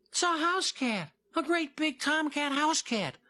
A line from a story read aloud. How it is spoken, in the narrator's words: little Jim cried out